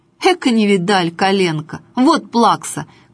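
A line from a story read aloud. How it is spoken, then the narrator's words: Shouted. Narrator (Russian): крикнул он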